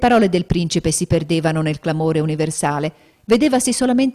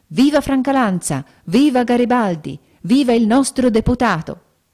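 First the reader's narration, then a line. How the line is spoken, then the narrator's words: Crowd yelling. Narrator (Italian): Urlavano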